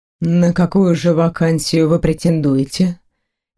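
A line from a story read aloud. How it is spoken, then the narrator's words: Soft clarifying question. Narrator (Russian): мягко уточнил мужчина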